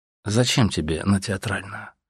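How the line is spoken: Calm question. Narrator (Russian): спросил он еще раз спокойно

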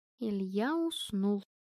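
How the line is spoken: Quiet. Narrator (Russian): тихо сказала Настя

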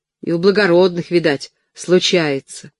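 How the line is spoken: Grumbling. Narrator (Russian): буркнула ей в ответ Хрычко

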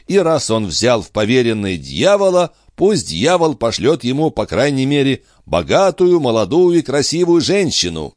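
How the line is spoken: Exclaiming. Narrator (Russian): воскликнул Юнг

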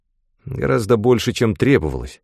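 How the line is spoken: Very angry reply. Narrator (Russian): ответил я очень сердито

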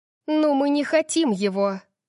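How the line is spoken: Irritated snap. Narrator (Russian): Огрызнулась я, и мое раздражение немного усилилось

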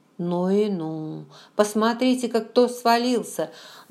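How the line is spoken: Exclamation with hysterical laughter. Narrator (Russian): воскликнула я и истерически рассмеялась

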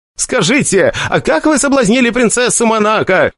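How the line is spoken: Shouting from back of crowd. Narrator (Russian): кричал один из тех, кто из-за отвратительных физических данных не мог пробиться в первые ряды

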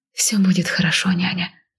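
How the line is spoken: Whisper. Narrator (Russian): зачем-то прошептала я

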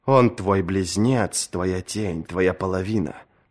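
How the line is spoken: Whisper. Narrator (Russian): прошептал ей другой голос

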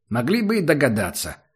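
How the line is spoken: Offended, then a snort. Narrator (Russian): с обидой сказал Убер и тут же хмыкнул

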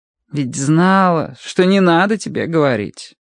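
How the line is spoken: Sighed. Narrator (Russian): вздохнула Мэри

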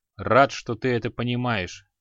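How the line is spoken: Calm. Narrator (Russian): спокойно произнес Криол

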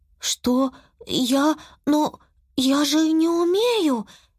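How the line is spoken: Frightened mutter. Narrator (Russian): испуганно пробормотала Юки

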